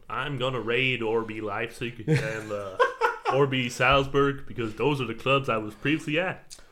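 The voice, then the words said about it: Imitates another person's voice. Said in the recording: “Best Jesse Marsh impression.”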